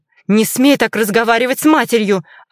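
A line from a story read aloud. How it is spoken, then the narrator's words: Snapping from other side. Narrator (Russian): огрызнулась с той стороны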